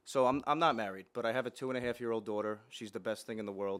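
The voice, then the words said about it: Slight accent. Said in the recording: “you got an accent. ... A little bit of an accent,”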